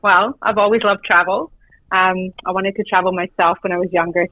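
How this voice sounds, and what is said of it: Non-Australian accent. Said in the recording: “you might hear an accent. I'm not originally from Australia.”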